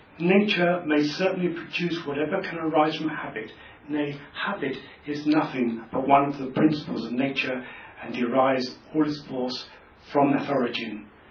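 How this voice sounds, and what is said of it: Put-on old-fashioned eighteenth-century accent. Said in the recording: “if there's anybody from the 18th century, I'm sorry, my accent wasn't perfect”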